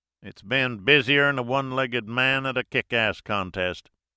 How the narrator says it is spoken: he replied in an Alabama drawl

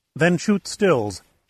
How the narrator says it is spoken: Shannon said firmly

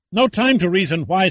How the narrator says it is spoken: snapped Oxley

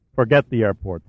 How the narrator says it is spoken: said Pitt

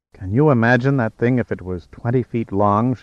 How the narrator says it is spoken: murmured in awe

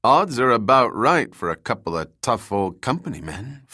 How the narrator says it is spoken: Flag said

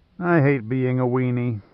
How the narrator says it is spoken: Jaeger sighed

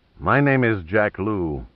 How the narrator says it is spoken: he said icily

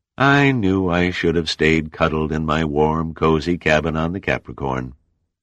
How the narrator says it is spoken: he sighed

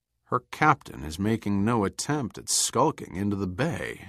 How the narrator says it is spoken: Dover said quietly

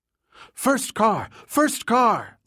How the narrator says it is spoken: Linda cried from the back seat

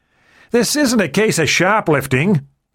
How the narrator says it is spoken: the man in black said loudly

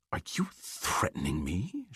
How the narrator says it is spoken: hissed

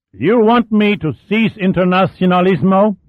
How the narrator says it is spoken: demanded above the muffled roar of the twin diesels

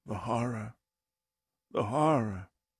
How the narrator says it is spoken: Kurtz, the civilized man turned savage, whispers on his deathbed

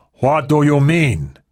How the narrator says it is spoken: shouted

